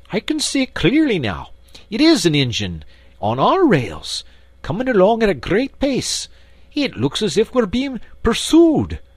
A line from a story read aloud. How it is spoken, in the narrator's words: Presently he called out